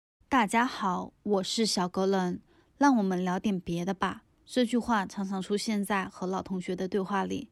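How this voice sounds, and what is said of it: Nonstandard regional Mandarin accent. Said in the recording (Chinese): “口音很不标准，一听就是别的口音”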